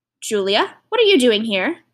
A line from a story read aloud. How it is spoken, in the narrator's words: he said, his voice sharp